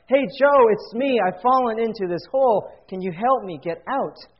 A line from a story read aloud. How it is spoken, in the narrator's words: the guy in the hole shouts up